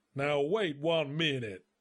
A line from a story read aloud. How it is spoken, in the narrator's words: bellowed the mayor